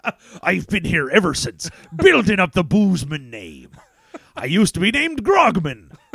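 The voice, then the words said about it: Put-on pirate-style Southern accent. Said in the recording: “a Southern gentleman... an R. Georgia-style accent”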